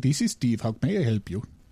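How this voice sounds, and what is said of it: Put-on Indian accent. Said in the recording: “I've been working on my Indian accent just so I could fit in around here.”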